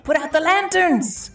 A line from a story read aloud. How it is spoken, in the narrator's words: Gett screamed